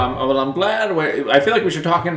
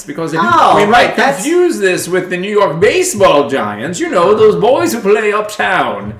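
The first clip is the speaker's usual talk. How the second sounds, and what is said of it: Old-timey 1950s American accent. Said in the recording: “talk in like old accents ... 1950s accent.”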